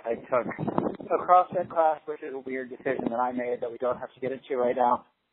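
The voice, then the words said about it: Slightly out of breath. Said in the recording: “Sorry if I'm a little out of breath.”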